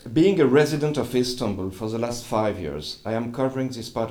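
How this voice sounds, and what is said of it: Speaks English with an accent. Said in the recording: “I'm sorry for my accent.”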